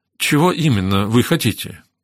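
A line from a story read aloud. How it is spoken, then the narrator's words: Uncertain question. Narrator (Russian): неуверенно спросила Кэтрин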